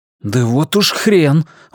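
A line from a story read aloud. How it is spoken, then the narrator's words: Exclamation. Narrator (Russian): воскликнул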